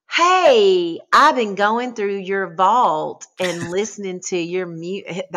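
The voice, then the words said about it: Imitates another person's voice. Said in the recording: “That's how he talks. So I love mimicking him.”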